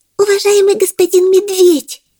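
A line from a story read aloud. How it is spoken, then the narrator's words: Affectionate squeaky voice. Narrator (Russian): пропищал он ласковым голоском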